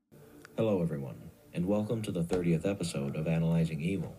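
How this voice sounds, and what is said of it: Monotone speaking voice. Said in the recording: “talks in such a monotone”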